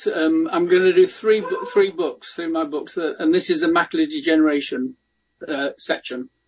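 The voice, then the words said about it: Non-American accent. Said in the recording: “Hope you get my accents as well, by the way. I always forget that sometimes people say different pronunciations in the USA.”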